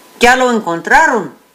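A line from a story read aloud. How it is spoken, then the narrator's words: Plain question. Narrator (Spanish): preguntó Vigil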